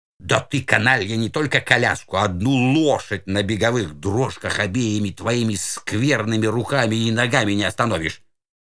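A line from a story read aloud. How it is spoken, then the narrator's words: Hissed. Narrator (Russian): прошипел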